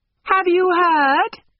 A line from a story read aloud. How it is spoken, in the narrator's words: shouted Mrs